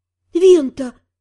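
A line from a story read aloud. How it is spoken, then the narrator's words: Dismayed exhale. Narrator (Russian): Чувствуя, как сердце падает в желудок, выдохнула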